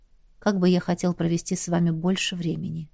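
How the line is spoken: Quiet. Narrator (Russian): тихо сказал он

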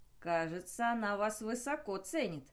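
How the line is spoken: Mocking. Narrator (Russian): насмешливо сказал Флеминг

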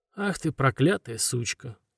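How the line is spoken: Tired, calm, sad tone. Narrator (Russian): устало и спокойно говорит Карл, таким печальным тоном, будто напарница Зубкова задолжала ему денег

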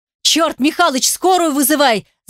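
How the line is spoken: Shouting. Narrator (Russian): закричал я в будку управления

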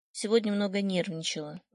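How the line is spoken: Dull, lifeless voice. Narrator (Russian): говорит она потухшим голосом

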